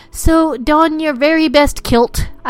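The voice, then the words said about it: Weak attempt at Scottish accent. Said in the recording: “I don't have a Scottish accent. I'm trying. I really am not very good with it.”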